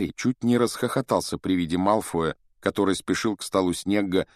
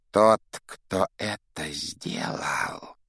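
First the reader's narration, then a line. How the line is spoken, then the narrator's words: Hiss. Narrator (Russian): прошипел Снег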